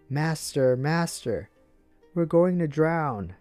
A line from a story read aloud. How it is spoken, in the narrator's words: shouting